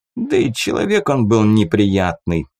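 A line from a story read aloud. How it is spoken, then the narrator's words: Scoffing snort. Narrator (Russian): хмыкнул Тис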